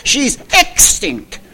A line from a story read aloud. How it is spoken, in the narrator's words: Arturo answered sharply